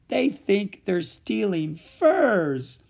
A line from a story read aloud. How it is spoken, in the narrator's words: cried when he could finally speak